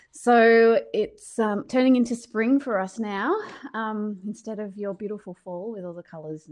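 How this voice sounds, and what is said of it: Australian accent. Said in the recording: “I'm from Australia, as you can hear. Um, my accent's a little bit different to yours.”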